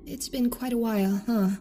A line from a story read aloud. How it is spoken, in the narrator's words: She said nervously, pain and exhaustion sapping her of so much of her zest